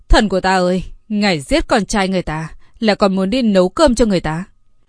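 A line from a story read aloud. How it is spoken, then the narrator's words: Anguished, near wailing. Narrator (Vietnamese): Giọng nó dường như muốn hét thảm lên, vẻ mặt đưa đám nói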